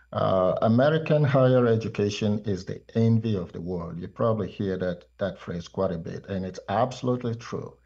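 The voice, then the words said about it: Nigerian accent. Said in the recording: “As you can hear from my accent, ... I myself was born in Nigeria”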